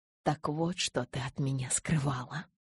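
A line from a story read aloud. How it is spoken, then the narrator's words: Whisper. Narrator (Russian): прошептал он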